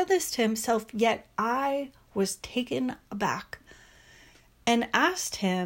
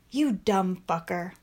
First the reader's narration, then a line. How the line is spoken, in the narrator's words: got upset with himself and said in a harsh tone